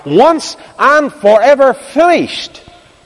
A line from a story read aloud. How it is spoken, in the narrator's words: He cried